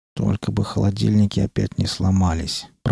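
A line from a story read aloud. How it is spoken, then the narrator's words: Pathologist muttering. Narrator (Russian): пробормотал патологоанатом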